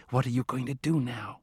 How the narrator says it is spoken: She whispered

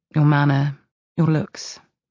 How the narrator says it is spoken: she says, her voice soft but steady

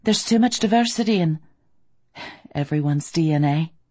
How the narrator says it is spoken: I said dryly

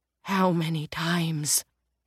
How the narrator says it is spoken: Roger whispered in a broken voice

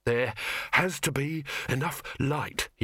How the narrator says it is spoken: he panted

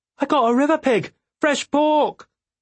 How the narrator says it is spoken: heard her shout

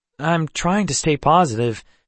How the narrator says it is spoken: Seth said, his smile faltering

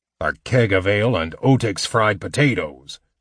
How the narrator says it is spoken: the dwarf muttered

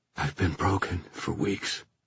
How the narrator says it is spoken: he said unsteadily

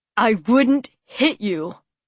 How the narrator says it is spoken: Noah said fiercely, his jaw clenching again

